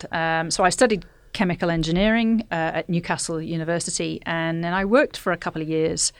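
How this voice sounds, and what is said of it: Northern English accent. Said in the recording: “You can probably tell by my accent ... born and grew up in uh, the north of England”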